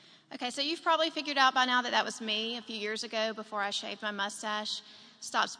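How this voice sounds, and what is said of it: Usual voice. Nothing is said of it.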